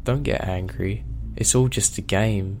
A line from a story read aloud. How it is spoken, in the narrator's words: it says in that ungodly voice